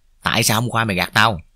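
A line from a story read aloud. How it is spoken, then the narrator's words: Hissing interrogating voice. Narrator (Vietnamese): Vẫn giọng rinh rít, tôi bắt đầu tra khảo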